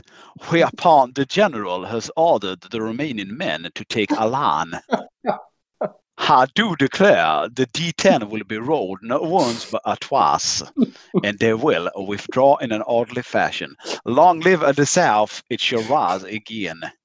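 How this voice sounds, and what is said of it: Thick put-on Southern accent. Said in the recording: “a really thick Southern accent”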